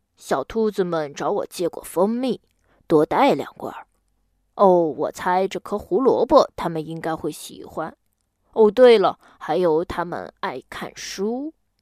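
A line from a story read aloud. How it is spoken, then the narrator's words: Muttering to himself. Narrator (Chinese): 大熊自己嘟囔道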